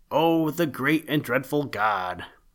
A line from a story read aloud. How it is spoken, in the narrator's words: Another poor naked creature cried